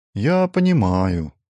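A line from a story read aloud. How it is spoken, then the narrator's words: Sad smiling reply. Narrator (Russian): ответил Ижерон, грустно улыбнувшись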